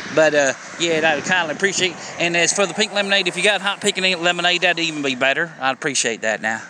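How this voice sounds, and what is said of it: Exaggerated North Carolina southern accent. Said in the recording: “that North Carolina southern accent to come out ... I know it sounds ridiculous, but if I put a microphone up to your average person around down here, that's exactly how they sound”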